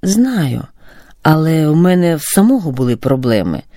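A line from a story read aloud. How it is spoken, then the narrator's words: Sigh. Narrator (Ukrainian): зітхнув Роман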